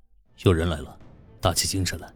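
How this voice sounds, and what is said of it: Low, tense voice. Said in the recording (Chinese): “他低沉的声音说道，声音里透着紧张。”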